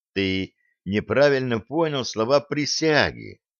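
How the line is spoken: Gentle, affectionate. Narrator (Russian): ласково сказал Блад

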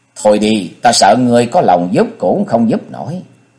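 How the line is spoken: Child speaking. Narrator (Vietnamese): thằng bé lại lắc đầu nói

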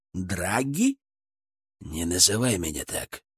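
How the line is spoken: Hissed, losing composure. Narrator (Russian): прошипел, вмиг растеряв все хладнокровие

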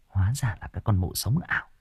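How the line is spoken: Muttering. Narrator (Vietnamese): chị này lẩm bẩm

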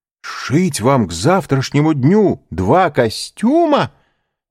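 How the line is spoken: Exclaiming. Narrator (Russian): воскликнул

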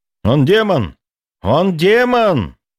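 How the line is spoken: Convulsive scream. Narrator (Russian): Вновь закричал Максим, содрогаясь в судорогах

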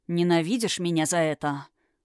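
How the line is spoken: Muffled voice. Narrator (Russian): глухо произнес он

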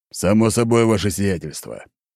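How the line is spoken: Barked. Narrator (Russian): рявкнул Антип

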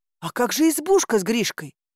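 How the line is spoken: Exclamation. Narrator (Russian): воскликнула я

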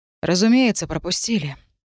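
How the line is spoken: Sighing. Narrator (Russian): вздохнул агент Лайт

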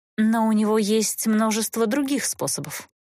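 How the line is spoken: Sighing. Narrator (Russian): вздохнула Эста

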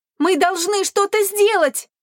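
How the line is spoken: Distant shout. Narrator (Russian): кричала Ли Сюэ с внутреннего двора

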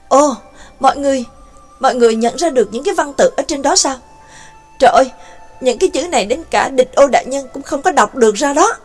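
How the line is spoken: Astonished exclamation. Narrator (Vietnamese): cô liền kinh ngạc kêu lên

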